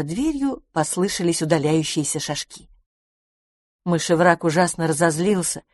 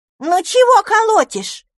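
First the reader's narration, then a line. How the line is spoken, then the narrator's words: Squeaky voice behind door. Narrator (Russian): пискнул голосок из-за двери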